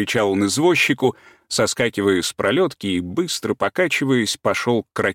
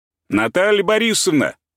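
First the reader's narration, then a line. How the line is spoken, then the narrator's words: Shout. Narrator (Russian): крикнул он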